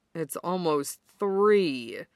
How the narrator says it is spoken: Kuro groans

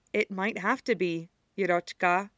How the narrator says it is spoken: says gently

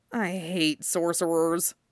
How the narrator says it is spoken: Jason mutters

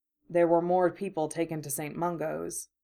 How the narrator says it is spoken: Remus said quietly

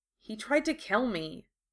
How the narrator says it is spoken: Katie spoke up quietly

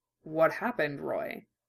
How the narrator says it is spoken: Hughes asked quietly

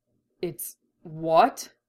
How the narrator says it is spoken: He stammers, genuinely startled

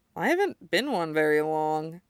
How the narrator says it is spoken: Kudo mumbles, cowed

